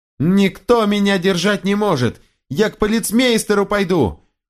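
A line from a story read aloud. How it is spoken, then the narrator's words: Increasingly loud shouting. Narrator (Russian): Все сильнее и сильнее кричал Альберт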